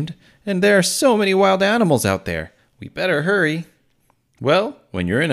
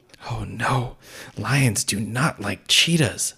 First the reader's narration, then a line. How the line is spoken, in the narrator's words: Martin whispered